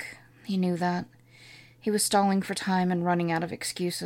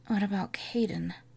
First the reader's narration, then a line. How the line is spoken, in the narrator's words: hoarsely whispered